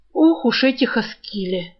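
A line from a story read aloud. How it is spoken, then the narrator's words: Sighing. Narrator (Russian): вздохнул Крысолов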